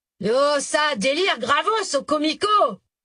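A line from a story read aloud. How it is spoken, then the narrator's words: Shouting over music. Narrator (French): cria-t-il pour couvrir les violons et les corps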